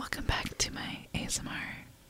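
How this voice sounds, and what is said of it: Whispering ASMR-style. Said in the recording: “she's whispering this”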